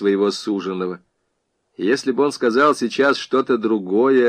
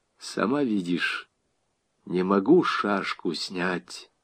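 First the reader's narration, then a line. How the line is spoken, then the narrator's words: Quiet. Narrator (Russian): тихо сказал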